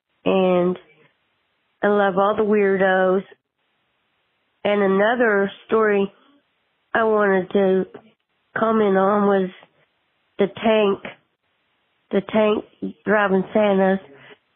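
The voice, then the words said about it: Sick, rough-sounding voice. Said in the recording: “I'm taking Theraflu, trying to get better. Sorry about my voice”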